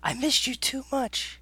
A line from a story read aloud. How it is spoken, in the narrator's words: I whispered